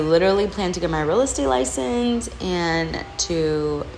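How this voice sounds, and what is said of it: Usual voice. Nothing is said of it.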